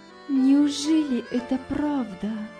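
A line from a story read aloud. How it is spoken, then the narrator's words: Trembling voice. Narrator (Russian): проговорила дрожащим голосом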